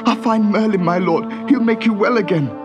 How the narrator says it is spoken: sobbed the young knight

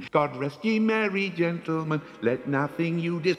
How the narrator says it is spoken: a chirpy young voice sang

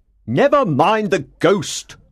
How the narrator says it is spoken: Monsieur Richard said impatiently

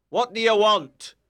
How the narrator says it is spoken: shouted

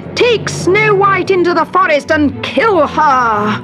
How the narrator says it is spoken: she screamed

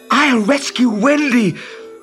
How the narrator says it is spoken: cried Peter

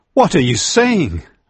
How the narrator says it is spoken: cried

